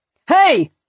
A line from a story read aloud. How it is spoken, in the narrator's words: one shouted